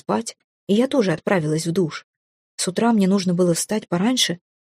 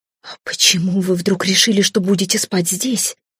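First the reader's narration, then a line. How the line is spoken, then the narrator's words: Angry hiss. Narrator (Russian): Я практически шипела от злости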